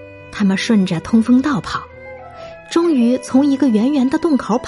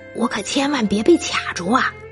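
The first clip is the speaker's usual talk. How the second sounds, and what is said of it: Quiet muttering. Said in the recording (Chinese): “小声嘀咕着”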